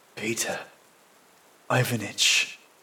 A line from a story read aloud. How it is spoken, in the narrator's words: I whisper